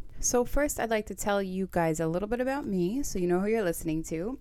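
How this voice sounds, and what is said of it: Staten Island New York accent. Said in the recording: “my Staten Island accent”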